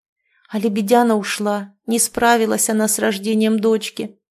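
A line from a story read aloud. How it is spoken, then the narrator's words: Sighing again. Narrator (Russian): вновь вздохнула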